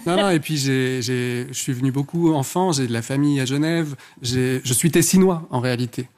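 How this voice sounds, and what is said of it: Thick Ticino Italian-Swiss accent in French. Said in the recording (French): “D'où l'accent ... C'est cet accent à couper au couteau ... Du lac de Lugano.”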